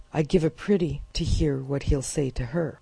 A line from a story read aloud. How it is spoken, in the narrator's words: commented bitterly